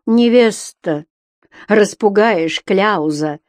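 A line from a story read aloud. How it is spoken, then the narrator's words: Starting to laugh. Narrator (Russian): засмеялся было Митька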